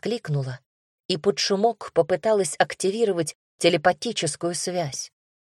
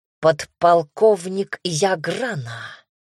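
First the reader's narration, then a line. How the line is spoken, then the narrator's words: Venomous hiss. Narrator (Russian): змеей прошипел Вальтер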